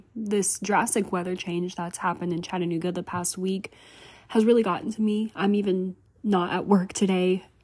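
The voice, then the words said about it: Sounds a little sick. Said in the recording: “I apologize if I sound a little sick.”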